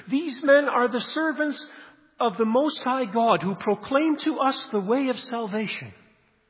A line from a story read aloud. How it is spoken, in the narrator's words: shouting wherever he goes in a loud voice for all to hear